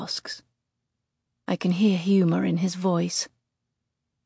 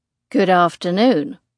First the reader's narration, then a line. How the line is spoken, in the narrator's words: Drew drawls